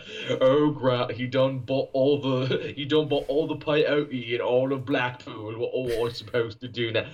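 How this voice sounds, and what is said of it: Shifting put-on Scottish/Cockney accent. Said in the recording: “I'm making him Scottish. I'm making him Cockney. I've walked through every accent I know. This is why I'm not an actor”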